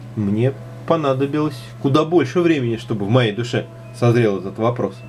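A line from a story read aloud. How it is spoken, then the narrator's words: Plain. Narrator (Russian): сказал он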